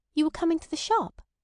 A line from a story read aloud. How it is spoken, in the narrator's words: she said nervously